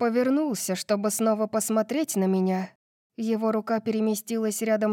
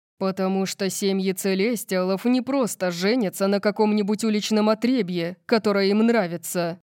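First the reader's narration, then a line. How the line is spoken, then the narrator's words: Growled. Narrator (Russian): прорычал он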